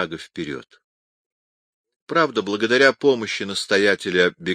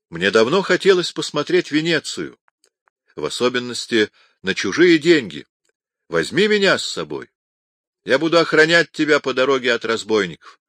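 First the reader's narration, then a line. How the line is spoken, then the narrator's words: Exclaimed. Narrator (Russian): Якопо при встрече воскликнул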